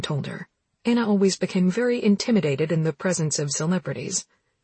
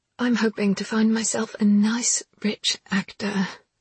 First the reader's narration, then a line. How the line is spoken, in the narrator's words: sighed Anna dreamily